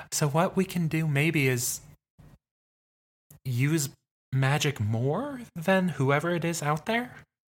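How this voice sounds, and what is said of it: Radio voice, half pitch higher. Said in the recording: “I do this kind of radio voice. ... You like go up a half pitch.”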